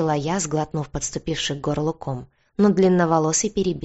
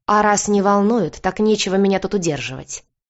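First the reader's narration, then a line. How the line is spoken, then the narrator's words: Snapping back. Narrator (Russian): огрызнулась я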